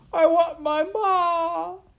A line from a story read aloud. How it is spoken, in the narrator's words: cried Midge into the silent, waiting world